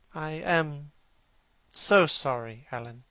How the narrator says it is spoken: he murmured

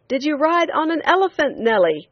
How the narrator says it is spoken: a man on the limits of it yelled

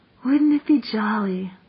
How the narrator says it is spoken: said Jane dreamily

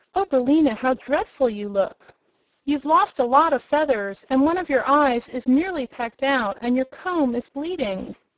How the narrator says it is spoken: The girl exclaimed

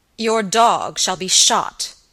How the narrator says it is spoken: answered Sir Michael angrily

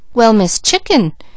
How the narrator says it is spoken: exclaimed Mickey in surprise

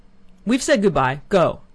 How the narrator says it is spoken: he suddenly shouted in a loud, angry voice

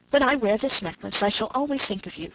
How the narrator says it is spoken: said she

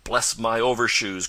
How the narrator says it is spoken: cried Mr

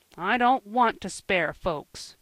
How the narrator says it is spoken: grumbled Joel

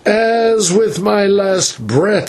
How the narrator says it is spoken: he cried

